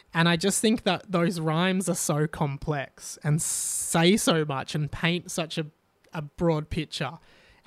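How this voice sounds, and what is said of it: Sore, tired voice. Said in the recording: “my voice is getting really sore from this bloody tonsillitis... I haven't been able to speak and my voice is getting really tired”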